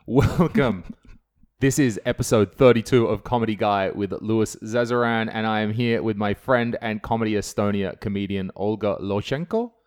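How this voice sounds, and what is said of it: Australian accent. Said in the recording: “my stupid Australian accent”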